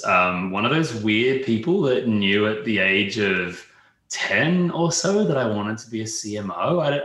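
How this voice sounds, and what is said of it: Australian accent. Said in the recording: “you can probably hear from my accent, I'm Australian”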